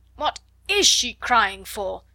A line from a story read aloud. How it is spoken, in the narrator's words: she almost yelled